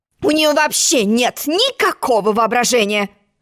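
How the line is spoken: Grumbling. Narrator (Russian): буркнула черная королева

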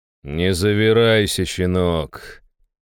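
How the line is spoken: Icy tone. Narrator (Russian): леденящим тоном проговорил я

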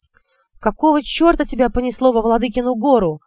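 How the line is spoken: Angry question. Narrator (Russian): сердито спросил Гретир

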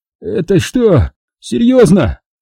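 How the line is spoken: Wheezing rasp. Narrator (Russian): просипел он

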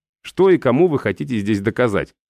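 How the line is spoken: Plain. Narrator (Russian): спросил

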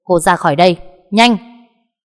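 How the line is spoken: Shouting. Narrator (Vietnamese): anh quát lên

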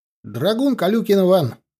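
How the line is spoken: Loud shout, young man. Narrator (Russian): громко крикнул паренек

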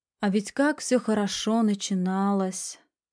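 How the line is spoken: Sighing. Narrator (Russian): вздохнула Серебрякова, нарушая тишину

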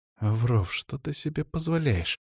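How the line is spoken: Hissing. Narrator (Russian): прошипела мне Светлана

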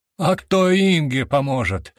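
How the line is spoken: Exasperated shout across hall. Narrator (Russian): не выдержал я, крикнув на весь холл

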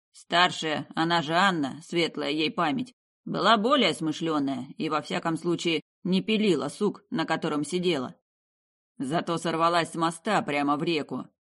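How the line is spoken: Grumbling. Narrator (Russian): проворчал я

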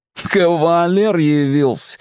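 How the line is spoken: Snorting. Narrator (Russian): хмыкнул Переросток

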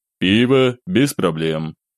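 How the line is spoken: Flat emotionless voice. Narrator (Russian): проговорил совершенно безэмоциональным голосом

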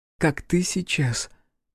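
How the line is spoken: Whisper. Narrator (Russian): прошептала Эрна

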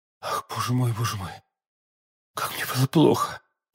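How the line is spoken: Melodious bewitching whisper. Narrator (Russian): прошептала миледи тем благозвучным голосом, который, подобно голосам волшебниц древности, очаровывал всех, кого она хотела погубить

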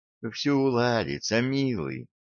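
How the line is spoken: Tender. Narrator (Russian): ласково сказала она

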